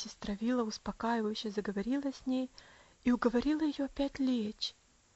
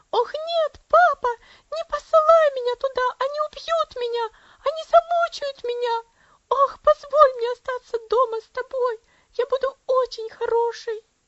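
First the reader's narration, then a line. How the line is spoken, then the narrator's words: Wild scream. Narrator (Russian): дико закричала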